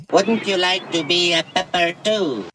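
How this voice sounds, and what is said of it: Robot character voice. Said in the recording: “I really hate the robot's voice”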